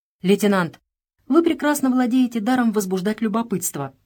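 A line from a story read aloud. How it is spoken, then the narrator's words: Exclamation. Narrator (Russian): воскликнула Нэнси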